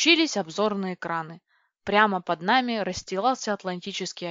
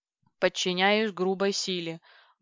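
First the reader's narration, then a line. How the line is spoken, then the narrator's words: Grumbling mutter. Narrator (Russian): буркнул компи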